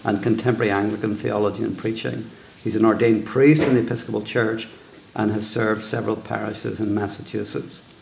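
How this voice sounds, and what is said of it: Irish accent. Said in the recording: “I will now put my Irish accent to sleep for a while and give you a break.”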